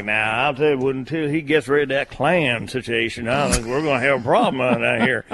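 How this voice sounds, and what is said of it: Imitated South Carolina accent. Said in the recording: “I think, South Carolinians ... it's funny to hear that in that accent.”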